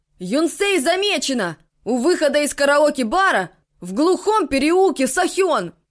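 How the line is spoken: Shouting from a rooftop. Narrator (Russian): человек-телескоп кричал с крыши школы

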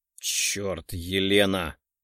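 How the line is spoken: Displeased, flustered grumbling. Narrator (Russian): недовольно проворчал, сбитый с толку внезапной неповоротливостью

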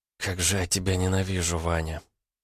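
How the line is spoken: Tearful whisper. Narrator (Russian): в слезах она прошептала

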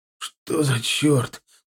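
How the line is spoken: Hoarse wheeze. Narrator (Russian): просипел я

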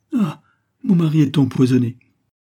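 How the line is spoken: Distraught wife's cry. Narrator (French): s'écria la malheureuse épouse

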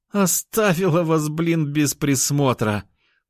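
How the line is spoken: Groan. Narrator (Russian): простонала сестра

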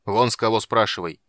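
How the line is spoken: Barked. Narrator (Russian): рявкнул Карамон

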